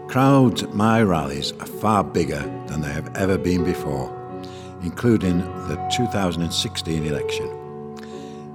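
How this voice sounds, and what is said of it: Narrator voice. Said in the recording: “Your best narrator voice.”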